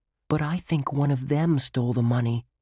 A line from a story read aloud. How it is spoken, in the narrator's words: Josh whispered